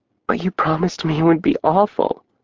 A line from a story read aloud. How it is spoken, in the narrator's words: she whispered